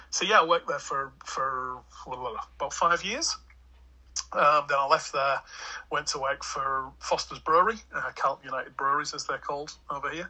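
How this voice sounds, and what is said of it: English accent. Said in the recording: “the English lad ... I can't hide in a crowd with this accent”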